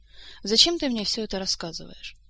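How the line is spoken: Hesitant, faltering answer. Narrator (Russian): Принц-бастард запнулся, остановился и неуверенно ответил

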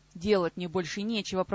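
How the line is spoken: Mild grumble. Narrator (Russian): проворчал тот, не особенно и возмутившись

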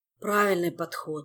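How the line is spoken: Sigh. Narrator (Russian): вздохнул мистралеец

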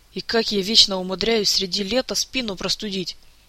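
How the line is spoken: Sighing. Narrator (Russian): Кантор вздохнул

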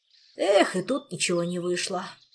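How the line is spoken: Sighing, openly annoyed. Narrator (Russian): вздохнул сосед, не скрывая досады, но и не выказывая никакой обиды

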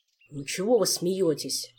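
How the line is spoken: Grumbled. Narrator (Russian): проворчал он

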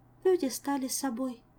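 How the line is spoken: Sighing. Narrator (Russian): вздохнула Азиль

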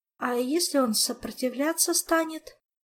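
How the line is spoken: Weak female objection. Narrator (Russian): Слабым голосом попыталась возражать Настя

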